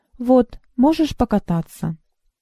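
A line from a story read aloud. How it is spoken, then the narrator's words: Calm. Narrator (Russian): спокойно сказал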